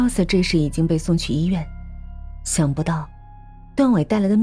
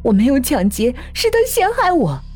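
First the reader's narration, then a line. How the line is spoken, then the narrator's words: Sudden desperate shout. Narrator (Chinese): 丁秀芬才忽然醒悟，大喊着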